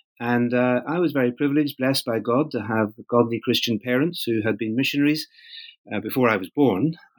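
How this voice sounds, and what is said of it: Northern Irish accent. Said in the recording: “the accent, as some people might recognize, is from Northern Ireland”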